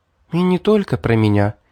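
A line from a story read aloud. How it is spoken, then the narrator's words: Sad young woman. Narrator (Russian): печально ответила девушка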